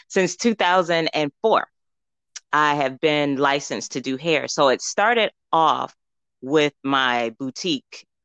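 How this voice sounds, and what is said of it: Mixed New York and Southern accent. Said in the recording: “a combination of a New York and Southern accent ... you got some syrup to your voice ... you do hear a mixture”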